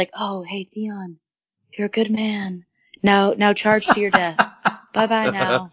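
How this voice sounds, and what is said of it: Imitates a creepy character's voice. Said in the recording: “your Bran impression.”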